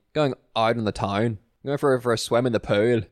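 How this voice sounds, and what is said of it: Put-on Northern Irish accent. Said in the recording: “But then a Northern Irish accent, I can only say”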